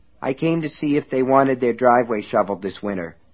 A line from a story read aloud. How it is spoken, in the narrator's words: the boy said in a mechanical, rote voice that frightened Alan badly